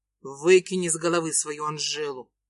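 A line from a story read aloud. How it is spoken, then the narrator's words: Irritated, curt. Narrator (Russian): Бросаю раздраженно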